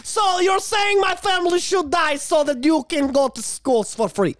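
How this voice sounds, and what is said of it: Poor put-on Ukrainian/Russian accent. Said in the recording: “Russian/Ukraine people with my horrible accent ... is my accent accurate? Probably not.”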